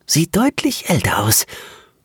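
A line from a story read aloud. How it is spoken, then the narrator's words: Female voice whispering in background. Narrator (German): flüsterte eine weibliche Stimme im Hintergrund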